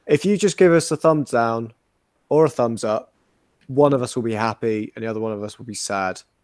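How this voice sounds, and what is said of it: Weak, pathetic pleading voice. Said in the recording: “Do the accent. Do the accent. ... I'm just going to go all weak and pathetic”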